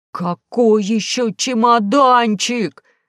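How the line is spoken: Young man yelling. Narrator (Russian): завопил молодой геолог

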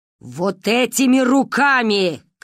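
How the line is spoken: Shouting. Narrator (Russian): кричала Ба

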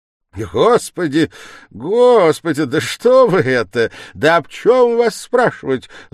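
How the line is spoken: Sudden cackling, changed tone. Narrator (Russian): закудахтал вдруг Порфирий Петрович, тотчас же изменяя и тон, и мигом перестав смеяться

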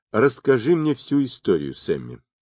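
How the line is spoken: Plain. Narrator (Russian): сказал я

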